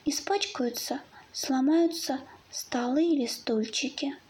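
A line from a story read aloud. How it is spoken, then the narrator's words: Fox cub's reply. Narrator (Russian): ответил лисенок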